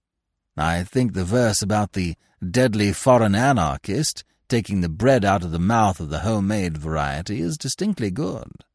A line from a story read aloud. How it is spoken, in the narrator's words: chuckled Manfred